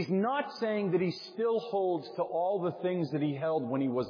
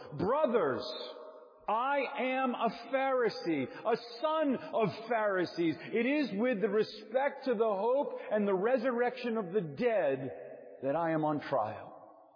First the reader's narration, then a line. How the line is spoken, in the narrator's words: Paul perceived that one part were Sadducees and the other Pharisees, he cried out in the council